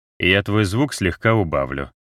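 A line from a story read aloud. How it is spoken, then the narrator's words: Plain. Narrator (Russian): сказал он Рузе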